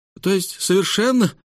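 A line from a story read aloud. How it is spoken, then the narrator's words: Crushed voice, treasurer. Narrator (Russian): убитым голосом произнес казначей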